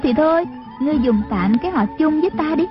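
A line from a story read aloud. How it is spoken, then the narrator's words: Smiling reply. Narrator (Vietnamese): Trung Linh mỉm cười đáp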